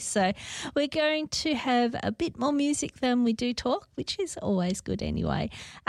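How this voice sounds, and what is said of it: Croaky, hoarse voice. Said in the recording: “I'm still not 100%, so my voice is still a bit croaky”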